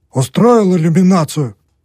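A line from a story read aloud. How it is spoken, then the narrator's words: Grumpy muttering. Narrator (Russian): пробурчал муж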